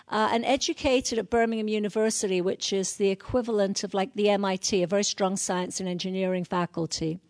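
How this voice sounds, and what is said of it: North London English accent. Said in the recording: “you can probably tell that from my accent. This is a North London accent, north of the River Thames.”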